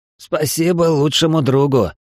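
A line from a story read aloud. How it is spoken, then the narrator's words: Snort. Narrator (Russian): Фыркнул Эл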